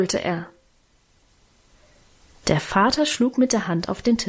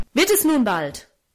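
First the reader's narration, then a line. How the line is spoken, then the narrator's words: Angry shout. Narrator (German): rief er zornig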